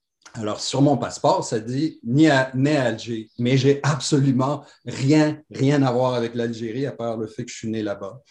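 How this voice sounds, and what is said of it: Mixed French, Pied-Noir, Moroccan, Québécois accent. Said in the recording (French): “cet accent euh, mélange français, pieds noirs, marocain, euh, etc. Et puis, euh, avec la, teinture québécoise maintenant.”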